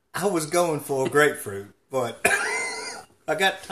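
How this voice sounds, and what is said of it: Usual voice. Nothing is said of it.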